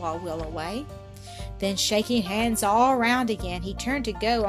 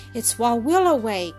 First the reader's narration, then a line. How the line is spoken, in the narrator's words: cried one